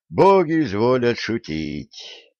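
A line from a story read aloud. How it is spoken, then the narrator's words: Sighing. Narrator (Russian): вздохнул Середин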